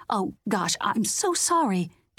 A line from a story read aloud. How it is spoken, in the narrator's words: she sputtered